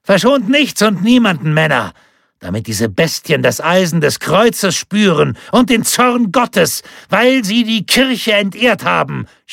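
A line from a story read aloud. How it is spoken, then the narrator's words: Continued shouting. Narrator (German): schrie er weiter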